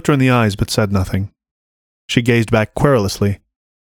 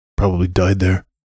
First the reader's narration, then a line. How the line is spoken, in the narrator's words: grumbled one of the boys